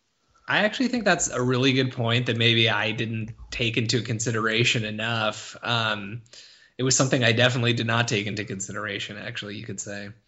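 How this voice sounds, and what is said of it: Imitates another person's voice. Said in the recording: “my poor attempt to make a D'Angelo Russell reference ... you sounded just like him. That was a really good impression.”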